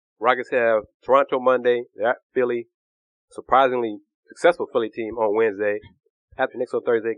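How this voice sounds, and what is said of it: Sick, coughing voice. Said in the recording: “before I cough anymore into the podcast and give listeners concerns about me and my sexy voice ... I'll be better next week, I hope”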